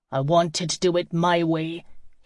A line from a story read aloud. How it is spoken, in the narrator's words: said coldly